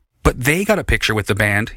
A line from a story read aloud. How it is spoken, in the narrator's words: insisted angrily